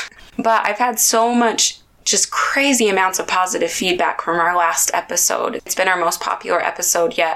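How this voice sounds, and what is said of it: Raspy, slightly deep voice. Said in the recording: “sorry about my voice. I'm a little raspy. ... that icky feeling in my throat ... sorry if I sound a little man-ish”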